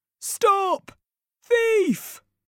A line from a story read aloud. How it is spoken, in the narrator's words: He shouts